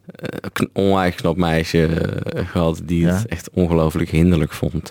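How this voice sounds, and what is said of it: Brabant Dutch accent. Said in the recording (Dutch): “Dat ik zo'n Brabants accent had, net zo'n Limburgs accent ... die vindt jouw accent wel charmant ... charmant is een understatement.”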